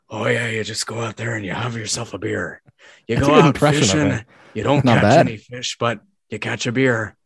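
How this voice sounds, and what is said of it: Imitates another person's voice. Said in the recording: “very good impression of him, actually”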